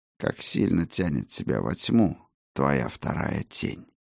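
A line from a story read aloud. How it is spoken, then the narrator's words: Quiet, deliberate enunciation. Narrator (Russian): Раздельно выговаривая слова, тихо произнес Бран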